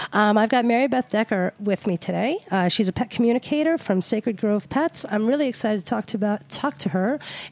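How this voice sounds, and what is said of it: Funky, sick-sounding voice. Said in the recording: “my voice is a little funky today. I've been sick, so if I'm sounding like Bea Arthur”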